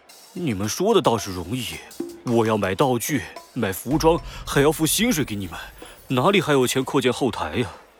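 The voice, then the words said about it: Quiet, displeased muttering. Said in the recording (Chinese): “约翰不满的小声嘟囔着”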